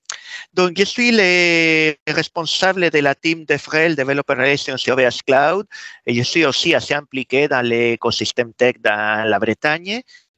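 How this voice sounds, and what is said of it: Slight Spanish accent in French. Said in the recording (French): “Le petit accent que vous arriverez peut-être à percevoir si vous vous concentrez fortement Bien de fait que je suis espagnol”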